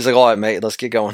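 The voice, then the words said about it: Put-on Australian-sounding accent. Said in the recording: “That was Australian.”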